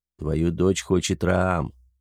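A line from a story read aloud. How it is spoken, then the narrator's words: Quiet telling. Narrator (Russian): негромко сообщил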